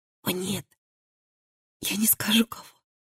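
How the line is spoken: Whisper. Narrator (Russian): прошептала Элли

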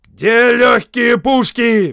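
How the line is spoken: Roared. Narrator (Russian): взревел Уоллес

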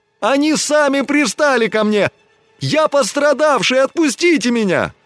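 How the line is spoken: Increasingly loud wailing. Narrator (Russian): Чем дальше его волочили от барака, тем громче он вопил

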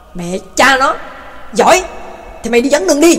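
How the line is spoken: Furious shout. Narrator (Vietnamese): Tây Mễ điên tiết quát lên

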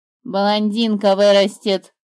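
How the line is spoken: Gruff bird grumble. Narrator (Russian): буркнула птица

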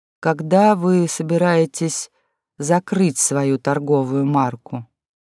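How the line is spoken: Gentle question. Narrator (Russian): ласково и аккуратно… спросил

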